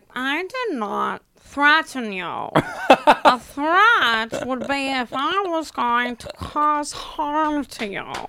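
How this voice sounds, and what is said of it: Impression of Meredith. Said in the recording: “Do a Meredith impression? ... Your Meredith was good. ... it was like a loose Meredith, but I want the like specific one. ... That's pretty good, right? ... Oh, that's really God. Good.”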